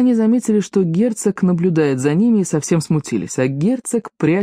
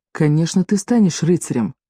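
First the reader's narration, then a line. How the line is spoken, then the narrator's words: Tender. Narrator (Russian): Лавиния сказала ласково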